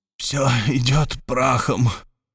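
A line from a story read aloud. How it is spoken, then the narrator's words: Barely audible. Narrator (Russian): с его уст чуть слышно сорвалось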